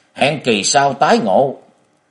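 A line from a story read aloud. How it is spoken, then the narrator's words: Angry loud shout. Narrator (Vietnamese): Ân Bổn giận miệng quát lớn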